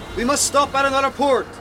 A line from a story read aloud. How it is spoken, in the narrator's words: shouted John Bunsby over the storm